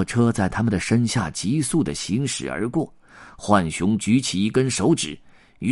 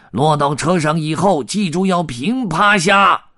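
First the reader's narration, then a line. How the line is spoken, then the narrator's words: Shouting raccoon. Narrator (Chinese): 浣熊喊道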